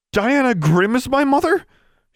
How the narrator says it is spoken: She exclaimed in horror

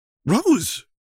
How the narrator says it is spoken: John exclaimed

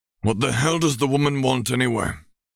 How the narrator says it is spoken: he grumbled

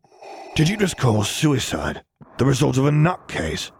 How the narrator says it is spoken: He spat out

